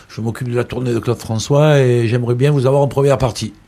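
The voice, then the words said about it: Imitated Marseille accent. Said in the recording (French): “avec son accent marseillais”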